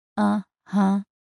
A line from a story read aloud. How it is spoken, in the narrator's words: said flatly